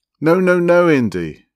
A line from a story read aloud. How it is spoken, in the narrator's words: cried in alarm